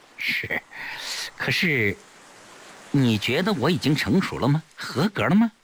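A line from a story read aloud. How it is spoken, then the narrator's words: Smiling. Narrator (Chinese): 崔丽笑着说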